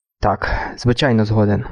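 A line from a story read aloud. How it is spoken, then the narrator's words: Rasped. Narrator (Ukrainian): прохрипів Дюран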